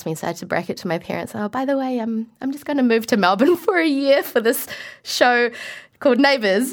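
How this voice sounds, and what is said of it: New Zealand accent. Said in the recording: “I was able to retain my New Zealand accent”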